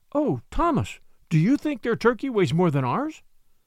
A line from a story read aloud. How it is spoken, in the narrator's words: cried Submit